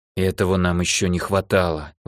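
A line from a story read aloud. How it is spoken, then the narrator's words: Strained, forced out. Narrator (Russian): выдавила старшая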